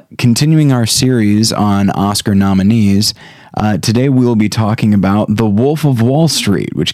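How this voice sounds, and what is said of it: Slightly ill, off-sounding voice. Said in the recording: “I'm a little bit under the weather, so my voice isn't what it could be”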